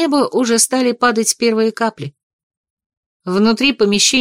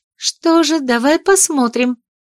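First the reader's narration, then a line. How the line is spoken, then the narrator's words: Playful exclamation. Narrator (Russian): задорно воскликнула принцесса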